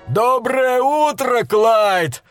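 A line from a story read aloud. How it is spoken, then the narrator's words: Joyful yell from afar. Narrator (Russian): радостно заорал он издалека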